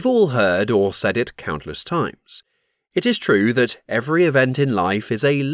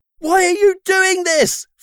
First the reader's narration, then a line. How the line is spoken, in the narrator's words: Flip shouted